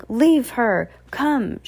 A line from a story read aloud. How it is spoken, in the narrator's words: shouted